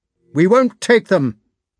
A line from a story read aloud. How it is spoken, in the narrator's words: he called out to Denisov